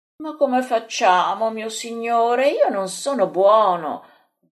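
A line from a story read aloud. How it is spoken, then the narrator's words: Moaning. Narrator (Italian): geme Andrea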